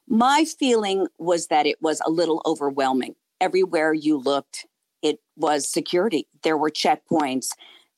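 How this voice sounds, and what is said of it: Hoarse, froggy voice. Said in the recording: “my voice is a little froggy because it has been a very long couple of days”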